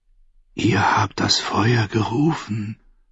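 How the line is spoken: Sad delicate whisper. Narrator (German): flüsterte mit einer Stimme, die so zart war wie das Rauschen der Wellen in einer Muschel, traurig und leise

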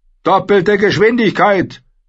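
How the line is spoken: Roaring. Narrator (German): brüllte Davos

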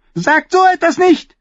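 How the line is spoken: Sudden shout. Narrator (German): schrie Tommen plötzlich, wobei sein kleines, rundes Gesicht rot anlief

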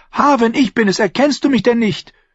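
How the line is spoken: Called out. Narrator (German): rief

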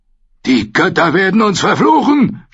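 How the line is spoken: Shouting. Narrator (German): schrie er

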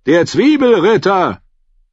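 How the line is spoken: Shouting. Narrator (German): rief

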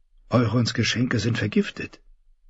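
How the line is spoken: Whispered. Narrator (German): wisperte

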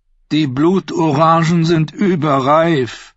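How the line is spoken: Tired voice. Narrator (German): bemerkte der Prinz mit müder Stimme an

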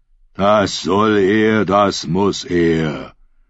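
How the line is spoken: Thundering like waves. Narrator (German): Aerons Stimme donnerte wie die Wellen

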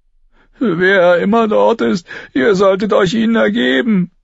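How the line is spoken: Whining. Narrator (German): jammerte Lommy

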